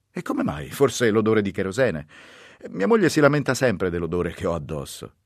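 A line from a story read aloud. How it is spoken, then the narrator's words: Laughing. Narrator (Italian): disse lui ridendo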